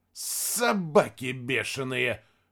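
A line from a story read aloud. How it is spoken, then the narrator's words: Hissed. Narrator (Russian): прошипел Рядошкин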